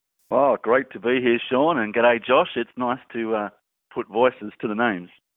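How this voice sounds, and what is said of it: Noticeable accent. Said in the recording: “I love your accent”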